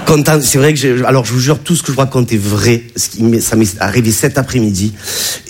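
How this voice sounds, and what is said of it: Southern French accent. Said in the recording (French): “tu as vu mon accent, hein, je viens pas de Bagnolet ... un petit village qui est dans les Bouches-du-Rhône”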